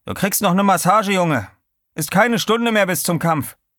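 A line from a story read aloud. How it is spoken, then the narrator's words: Called out. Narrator (German): rief er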